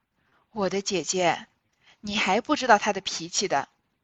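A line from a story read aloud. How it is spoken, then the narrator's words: Sighing. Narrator (Chinese): 平儿叹道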